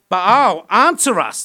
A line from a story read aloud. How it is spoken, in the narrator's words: they shouted